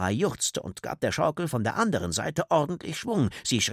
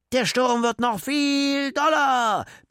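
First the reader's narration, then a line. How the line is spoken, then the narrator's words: Roaring. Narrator (German): brüllte Leo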